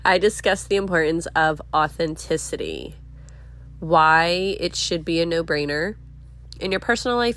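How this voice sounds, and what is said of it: Voice sounds sick, congested. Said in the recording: “I'm getting over being sick. So excuse my voice. I might be coughing. I will pause to blow my nose”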